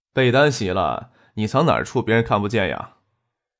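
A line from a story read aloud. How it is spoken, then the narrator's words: Laughing. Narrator (Chinese): 张可笑着说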